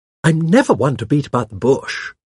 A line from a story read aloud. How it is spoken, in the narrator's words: she said in her jolly voice, the latter slightly toned down to meet the requirements of the situation